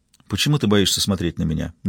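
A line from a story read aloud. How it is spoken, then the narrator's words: Soft question. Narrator (Russian): мягко спрашивает она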